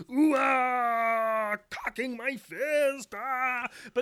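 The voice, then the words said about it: Imitates a wrestler's voice. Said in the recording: “a great Roman Reigns impression.”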